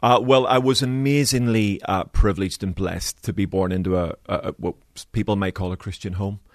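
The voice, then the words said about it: Slight Belfast accent. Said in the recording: “I understand you were born in Belfast... And hear it slightly in your accent.”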